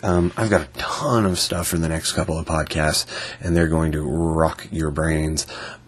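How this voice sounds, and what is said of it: Unwell, sick-sounding voice. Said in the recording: “as you can hear from my voice and my general demeanor, I'm not feeling too well today”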